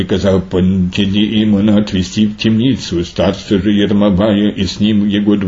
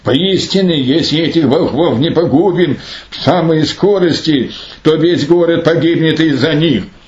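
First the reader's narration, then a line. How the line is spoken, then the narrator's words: Mad ruler exclaiming. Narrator (Russian): Безумный же правитель, видя во всем этом не силу Божию, но волшебство христиан, воскликнул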